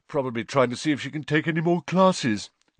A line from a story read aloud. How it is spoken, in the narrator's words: yawned Ron